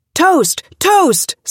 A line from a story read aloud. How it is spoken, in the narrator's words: someone yelled